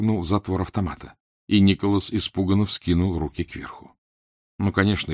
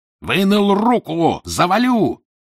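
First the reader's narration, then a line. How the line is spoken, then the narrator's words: Furious yelling from darkness. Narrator (Russian): бешено заорали на магистра из темноты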